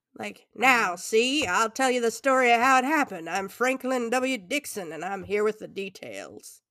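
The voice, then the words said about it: Imitated voice of an imagined author. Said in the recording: “That's my impression of how that ghostwriter would speak if he were a solid person.”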